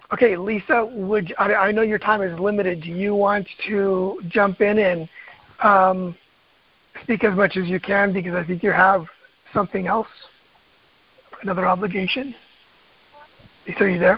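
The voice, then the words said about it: Strained, fading voice. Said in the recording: “My voice is going. I feel it now.”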